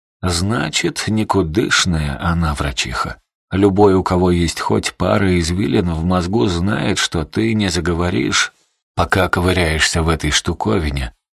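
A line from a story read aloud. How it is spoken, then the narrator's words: Reluctant grumble, old man. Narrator (Russian): неохотно проворчал дед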